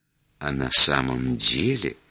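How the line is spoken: Confidential whisper. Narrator (Russian): Сотрудница доверительно шепнула

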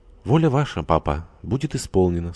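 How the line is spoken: Calm reply. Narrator (Russian): спокойно отвечала Саша

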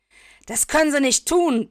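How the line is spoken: Barked. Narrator (German): bellt er

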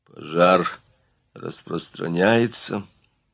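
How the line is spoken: Hoarse voice. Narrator (Russian): заметил Дюрок удивительно хриплым голосом

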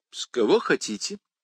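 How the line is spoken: Calm. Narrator (Russian): спокойно ответил Фоули

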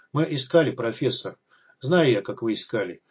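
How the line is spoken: Quiet but steely. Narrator (Russian): Негромко, но со сталью в голосе произнесла Надежда Ивановна

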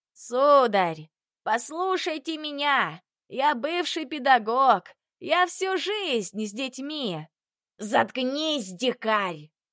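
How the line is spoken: Roaring. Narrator (Russian): Взревел Бурхаев

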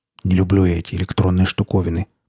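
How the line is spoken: Muttering. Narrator (Russian): пробормотал он

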